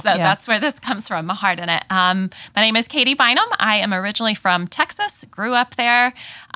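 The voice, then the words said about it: Southern drawl, Texas accent. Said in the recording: “that southern drawl ... straight from Texas”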